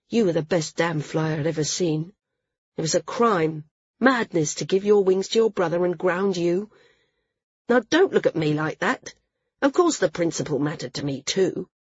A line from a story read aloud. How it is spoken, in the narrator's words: he went on, his tone a little cooler